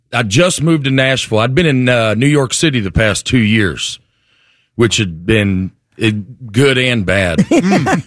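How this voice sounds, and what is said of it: Southern US accent, North Alabama. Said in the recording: “let's pinpoint the accent right away. You grew up where? ... North Alabama, mm-hmm. Right outside of Huntsville. ... My accent catches some strays in New York City”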